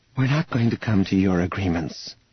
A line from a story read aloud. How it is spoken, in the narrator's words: Leia said wearily